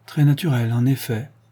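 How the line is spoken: Sighing. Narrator (French): dit Jones en soupirant

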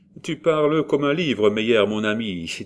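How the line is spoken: Jovial, cheerful tone. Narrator (French): dit-il d'un ton joux et jovial

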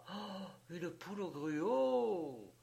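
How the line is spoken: Surprised exclamation. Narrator (French): s'écria-t-elle toute surprise

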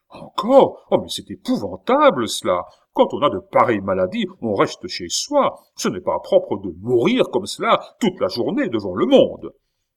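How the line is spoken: Shuddering exclamation. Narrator (French): Le roi s'écria en frissonnant

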